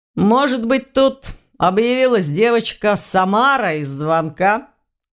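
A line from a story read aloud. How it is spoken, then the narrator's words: Laughing. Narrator (Russian): Рассмеялся Ваня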